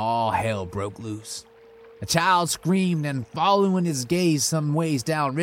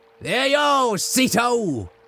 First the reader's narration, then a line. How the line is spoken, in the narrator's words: Dannon called out